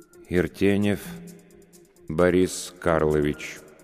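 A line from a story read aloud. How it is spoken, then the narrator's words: Slow speech. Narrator (Russian): медленно проговорил вошедший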